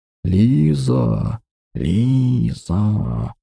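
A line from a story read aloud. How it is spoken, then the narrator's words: Whisper like snake hiss. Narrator (Russian): Шепот, больше похожий на змеиное шипение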